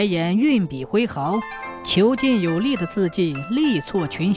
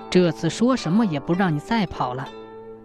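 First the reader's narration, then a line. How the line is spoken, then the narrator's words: Overjoyed murmuring. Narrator (Chinese): 白眼大喜，嘴里喃喃道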